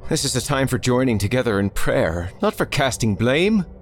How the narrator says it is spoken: Father Clausen's voice called out

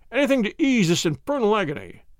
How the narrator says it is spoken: The inspector and I cried out at the sight

